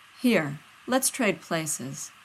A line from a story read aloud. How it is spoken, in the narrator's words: John says, his voice light